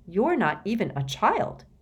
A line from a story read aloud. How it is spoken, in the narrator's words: exclaimed